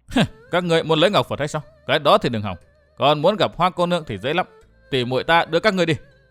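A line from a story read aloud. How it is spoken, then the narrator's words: Cold, mocking reply. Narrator (Vietnamese): Sử Hắc Thanh cười nhạt đáp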